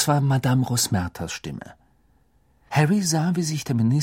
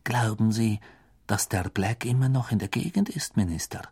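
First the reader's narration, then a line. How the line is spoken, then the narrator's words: Whisper. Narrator (German): flüsterte Madame Rosmerta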